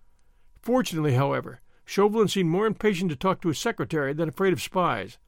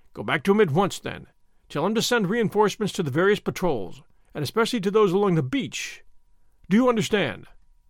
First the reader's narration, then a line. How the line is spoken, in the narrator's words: Chauvelin spoke curtly and to the point